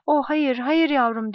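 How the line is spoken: Moaned. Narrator (Turkish): diye inledi

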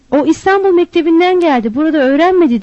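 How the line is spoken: Group begins shouting. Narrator (Turkish): diye bağırmaya başladılar

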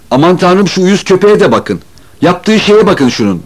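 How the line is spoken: Shouting. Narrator (Turkish): diye bağırdı

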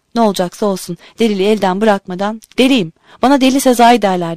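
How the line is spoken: Shouted. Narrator (Turkish): diye bağırdım

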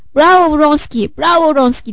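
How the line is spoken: Shouted. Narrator (Turkish): diye bağırdı

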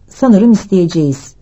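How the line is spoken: Calm voice. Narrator (Turkish): dedi sakin bir sesle

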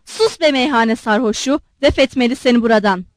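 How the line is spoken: Angry. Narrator (Turkish): Darya Alekseyevna öfkeyle

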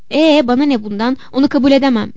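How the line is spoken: Shouting. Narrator (Turkish): diye bağırdı

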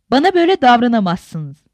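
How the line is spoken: Exasperated shout. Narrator (Turkish): diye bağırdı sabrı taşan Safiye

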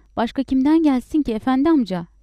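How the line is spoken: Shouting. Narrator (Turkish): diye bağırdı

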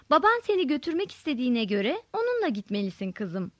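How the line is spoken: Said sweetly. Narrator (Turkish): dedim tatlı bir sesle Mehtap'a

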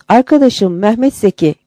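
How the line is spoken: Shouting. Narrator (Turkish): diye bağırdım

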